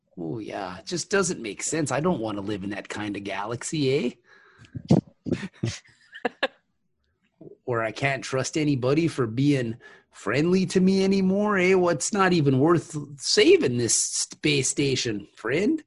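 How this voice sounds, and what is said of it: Put-on Midwestern Canadian accent. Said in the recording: “your Midwest accent ... That's like Canada”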